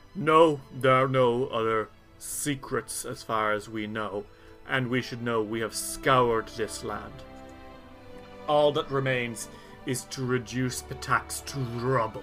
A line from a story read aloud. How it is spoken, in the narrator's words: Daunuk, the one-armed Tiger Lord leader, kind of grunts and says